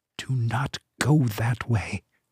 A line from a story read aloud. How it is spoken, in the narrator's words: as if an inner voice called softly to him